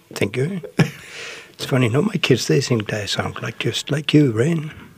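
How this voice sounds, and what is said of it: Danish accent. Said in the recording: “you can't take the Danish out of the boy ... Or the accent. Which, by the way, is charming”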